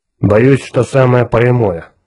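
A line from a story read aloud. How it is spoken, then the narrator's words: Gloomy. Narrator (Russian): мрачно сказал Кертис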